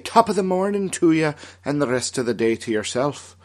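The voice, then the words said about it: Put-on Irish-style accent. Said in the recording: “how good my patio furniture accent was”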